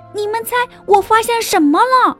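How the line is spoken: Shouting. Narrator (Chinese): 他就大叫起来

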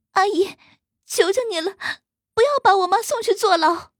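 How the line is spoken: Crying, pleading. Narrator (Chinese): 那女孩哭着说

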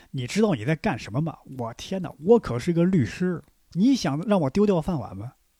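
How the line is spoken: Angry. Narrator (Chinese): 怒气冲冲

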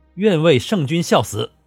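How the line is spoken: Three voices, loud. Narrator (Chinese): 三人皆高声答道

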